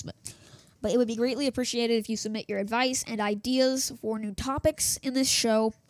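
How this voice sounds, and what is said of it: Voice starting to go, strained. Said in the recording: “to lose my voice. I've been talking for 12 minutes now in this single recording. ... Oh, I hate it when I lose my voice”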